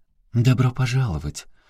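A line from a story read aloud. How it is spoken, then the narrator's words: Feigned friendly tone. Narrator (Russian): Служанка с ярко накрашенными губами, напустив на лицо приветливость, заговорила совершенно другим тоном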